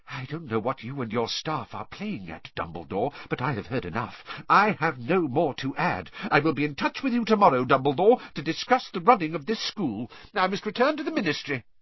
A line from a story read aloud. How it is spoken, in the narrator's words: apparently repelled, whispered